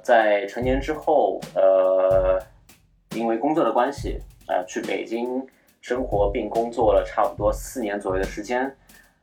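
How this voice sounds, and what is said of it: Shanghainese-accented Mandarin, merged nasals. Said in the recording (Chinese): “你看这前鼻音就暴露了吧，对吧？前后鼻音完全不分”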